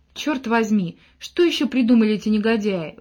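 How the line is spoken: Exclaiming. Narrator (Russian): воскликнул капитан

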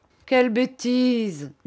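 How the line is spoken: Laughing. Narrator (French): dit Steerforth en riant

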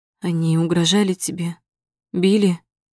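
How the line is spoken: Hoarse question. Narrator (Russian): Севшим голосом спрашивает

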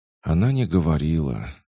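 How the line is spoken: Manager sighing again. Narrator (Russian): снова вздохнул управляющий

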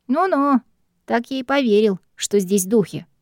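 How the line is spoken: Skeptical snort. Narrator (Russian): хмыкнул Стэнли

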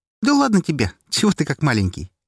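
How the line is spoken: Cheerful. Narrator (Russian): весело отозвалась Настя

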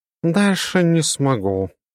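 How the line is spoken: Purring cat. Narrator (Russian): промурлыкала кошка

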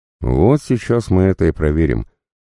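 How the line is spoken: Skeptical snort. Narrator (Russian): хмыкнул Иван Федорович

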